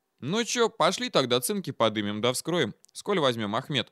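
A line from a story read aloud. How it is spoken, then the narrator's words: Altered voice, cheerful, detached. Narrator (Russian): Голос Витька звучал иначе, но как-то весело и отрешенно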